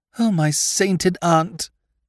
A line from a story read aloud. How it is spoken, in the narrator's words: he moaned